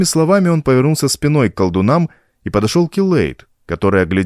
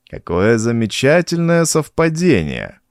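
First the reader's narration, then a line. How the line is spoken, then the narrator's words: Purr. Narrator (Russian): промурлыкал Абнон-Тха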